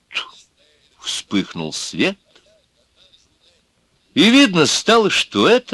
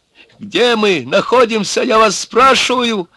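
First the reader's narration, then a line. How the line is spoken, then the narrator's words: Hysterical shout. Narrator (Russian): Опять закричал тот истеричный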